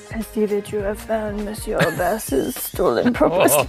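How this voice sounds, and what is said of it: French accent. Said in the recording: “a real Frenchman. I can tell how French you are just from the accent.”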